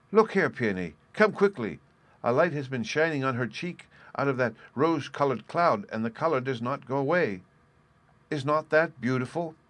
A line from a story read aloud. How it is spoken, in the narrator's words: All of a sudden, Violet cried out loudly and joyfully